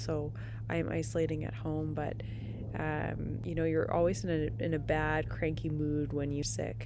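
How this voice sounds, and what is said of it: Rough voice from a cold. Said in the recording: “my voice sounds a little crazy. I am recovering from COVID ... it was, for me, a cold”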